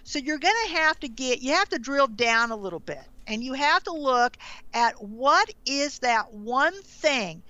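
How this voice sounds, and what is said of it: Southern American accent. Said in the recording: “your great Southern accent”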